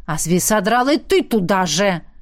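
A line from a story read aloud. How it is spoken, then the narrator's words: Annoyed bark. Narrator (Russian): рявкнул голос досадливо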